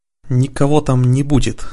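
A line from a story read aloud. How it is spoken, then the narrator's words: Angry, through teeth. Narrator (Russian): со злостью процедил Радхар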